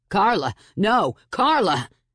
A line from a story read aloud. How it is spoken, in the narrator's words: Anthony shouted